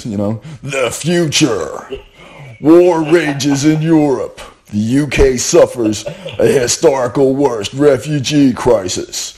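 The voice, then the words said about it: Movie trailer narrator voice. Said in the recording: “put on my movie voice”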